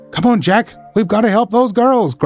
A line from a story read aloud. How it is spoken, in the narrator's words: cried Randy